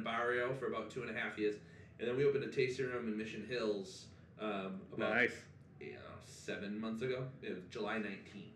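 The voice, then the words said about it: Massachusetts accent. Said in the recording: “I love your accent. ... Where are you from? ... Whitman, Massachusetts.”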